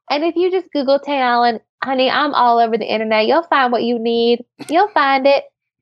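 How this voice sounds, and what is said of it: Texas drawl. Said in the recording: “She never gets that Texas accent going, the little Texas draw, until the very end of the show.”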